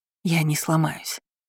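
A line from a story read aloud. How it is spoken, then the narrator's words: Breathless exhale. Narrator (Russian): выдохнула я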